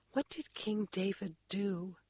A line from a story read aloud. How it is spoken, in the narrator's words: I whispered privately